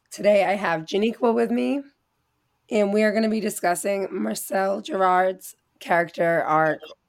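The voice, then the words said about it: Hoarse, failing voice. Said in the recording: “Sorry about my voice, I'm losing it. ... I didn't have a voice while I was recording most of this episode ... my messed up voice”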